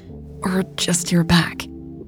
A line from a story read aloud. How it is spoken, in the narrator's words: groaned, presumably to indicate that she was thinking